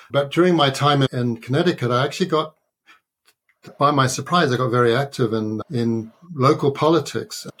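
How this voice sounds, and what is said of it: Non-native English accent. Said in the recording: “You can tell from my accent, I'm a naturalized American.”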